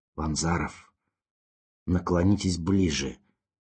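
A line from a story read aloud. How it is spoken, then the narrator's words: Hoarse request. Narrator (Russian): хрипло попросил профессор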